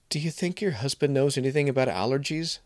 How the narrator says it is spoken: I blurted

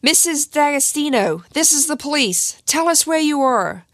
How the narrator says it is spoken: police ran in yelling

